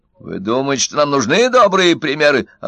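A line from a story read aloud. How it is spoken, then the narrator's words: Snapping retort. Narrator (Russian): огрызнулся Удалов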